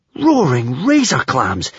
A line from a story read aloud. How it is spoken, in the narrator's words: exclaimed Hiccup, his jaw dropping